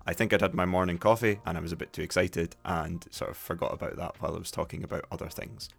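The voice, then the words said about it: Softer, posher Scottish accent. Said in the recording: “my accent wasn't a typical Dundee accent. I don't sound like people from Dundee proper ... what a lot of Dundonians would consider to be more of a posh accent”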